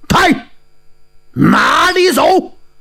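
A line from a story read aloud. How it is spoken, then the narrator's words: Sudden loud shout. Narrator (Chinese): 忽听有人大叫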